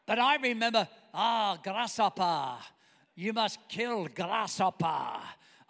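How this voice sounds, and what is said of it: Mr. Miyagi impression, mixed accent. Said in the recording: “I'm doing Karate Kid now. I'm doing Mr. Miyagi. ... I'm getting my accents confused.”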